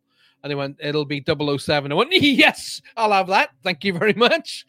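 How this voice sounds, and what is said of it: Scottish accent. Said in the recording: “that's a good Scottish accent”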